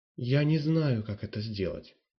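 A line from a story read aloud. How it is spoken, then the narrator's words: Timid. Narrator (Russian): робко сказала Марлена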